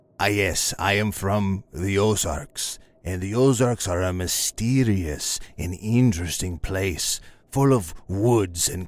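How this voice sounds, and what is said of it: Ozarks regional American accent. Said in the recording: “the accent is throwing me up a little bit”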